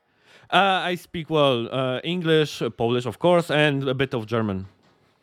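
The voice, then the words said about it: Non-native English accent. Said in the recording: “sorry for my accent ... Don't apologize for your fucking accent”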